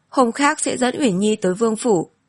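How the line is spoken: Smiling. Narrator (Vietnamese): Phạm Nhàn mỉm cười nói

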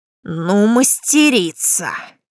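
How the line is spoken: Menacing tone. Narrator (Russian): Начал он тоном, сулящим неприятности

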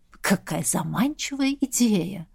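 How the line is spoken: Purring demon. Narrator (Russian): мурлыкнул демон

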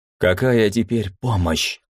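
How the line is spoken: Irritated. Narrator (Russian): раздраженно ответил кумник

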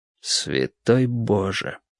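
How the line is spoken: Breathed exclamation. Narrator (Russian): выдохнул

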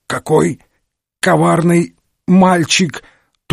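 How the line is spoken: Strained, forced out. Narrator (Russian): Только и смог он из себя выдавить

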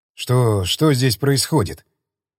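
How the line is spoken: Tense question. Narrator (Russian): Атомный офицер спросил напряженным голосом

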